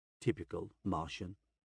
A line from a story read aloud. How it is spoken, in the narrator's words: Volga mutters